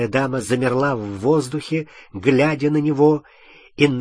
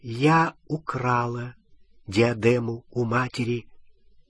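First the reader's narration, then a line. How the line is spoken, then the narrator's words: Quiet. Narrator (Russian): она тихо сказала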